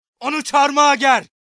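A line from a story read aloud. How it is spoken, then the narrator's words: Shouted. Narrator (Turkish): diye bağırdı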